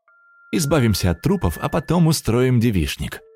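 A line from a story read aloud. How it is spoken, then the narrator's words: Cheerful. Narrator (Russian): весело добавила Диана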